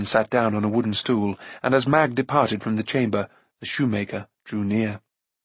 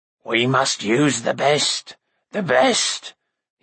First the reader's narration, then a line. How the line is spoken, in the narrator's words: he croaked, in a voice much like Kor's